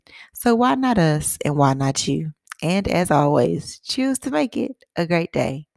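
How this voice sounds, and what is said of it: Raspier voice than usual. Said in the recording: “my voice is a little bit raspier than usual”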